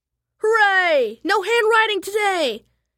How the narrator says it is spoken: yelled Pinky

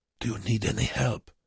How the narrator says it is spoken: Bruckmann asked Wernicke in a low voice

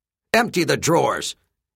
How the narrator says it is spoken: snarled

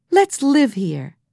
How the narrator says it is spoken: cried Jessie

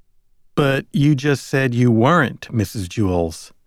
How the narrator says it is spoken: said the man

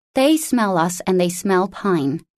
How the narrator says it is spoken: said firmly

